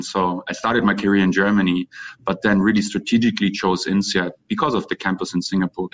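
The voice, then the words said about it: German accent. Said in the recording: “as you might can hear from my accent and my name, I'm German.”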